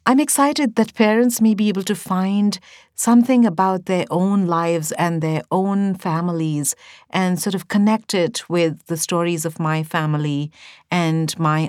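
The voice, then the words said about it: Urban Indian English accent. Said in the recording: “my authentic urban Indian English accent and also reflect the intonations that have crept in during the 21 years I have lived in America”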